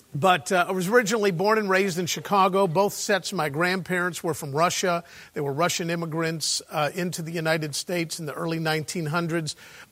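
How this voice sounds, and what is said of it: American Chicago accent. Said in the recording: “I was born and raised in Chicago. I know from my accent you thought I was from North London, didn't you?”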